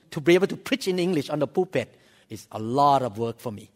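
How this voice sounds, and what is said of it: Non-native English accent. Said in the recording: “it's not my mother tongue language ... I get teased in the operating room every Wednesday at Evergreen Hospital of my accent ... try to correct my English”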